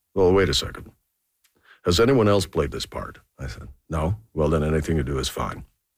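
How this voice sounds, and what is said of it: Good Leslie Nielsen impression. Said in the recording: “That was a good Leslie Nielsen impression”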